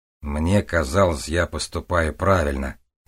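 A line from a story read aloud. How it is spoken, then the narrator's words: Gloomy. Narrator (Russian): мрачно сказал мне Том Маркл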